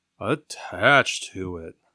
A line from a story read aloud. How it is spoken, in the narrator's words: said Winnie the Pooh sadly